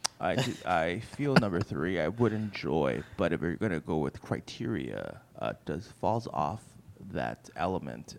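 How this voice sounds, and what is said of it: Serious voice imitating another person. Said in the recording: “This is my real serious voice where I just start talking a little bit like Stephen Wright”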